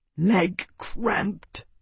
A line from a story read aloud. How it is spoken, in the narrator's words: Gaius growled softly